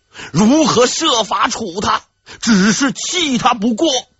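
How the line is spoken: Roar. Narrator (Chinese): 万历又是一声大吼

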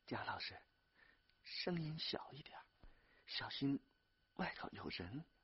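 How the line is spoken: Tearful soft interjection. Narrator (Chinese): 丽丽一边抹眼泪，一边轻声的插嘴说

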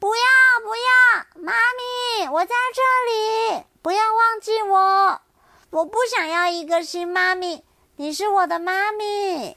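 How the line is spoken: Desperate dreamlike shout. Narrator (Chinese): 冰冰以为自己还在做梦，忍不住大喊

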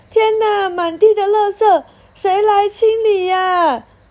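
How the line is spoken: Parents shouting. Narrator (Chinese): 爸爸妈妈大叫

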